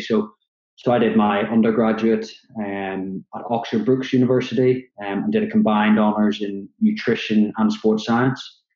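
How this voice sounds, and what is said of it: Northern Irish Belfast accent. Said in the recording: “from the accent, you can probably tell I'm from Belfast in Northern Ireland originally”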